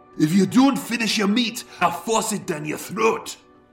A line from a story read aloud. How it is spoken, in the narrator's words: As with a mashed mouthful of potato, he spat